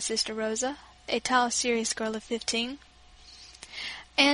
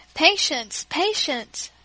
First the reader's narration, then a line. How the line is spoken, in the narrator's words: cried my father